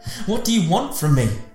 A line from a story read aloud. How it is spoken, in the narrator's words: I shouted